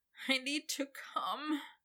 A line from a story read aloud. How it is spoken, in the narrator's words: he whined